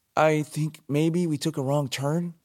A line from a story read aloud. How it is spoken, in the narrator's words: he began to say, but choked on the words